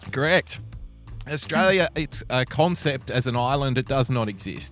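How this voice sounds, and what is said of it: Australian accent. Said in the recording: “I've needed the Australian authenticity from your voice ... That phony ass Australian accent”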